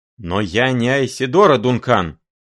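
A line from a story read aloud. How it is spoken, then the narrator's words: Sudden bark. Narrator (Russian): вдруг рявкнул он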